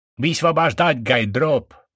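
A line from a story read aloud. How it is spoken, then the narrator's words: Male shout. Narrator (Russian): прокричал он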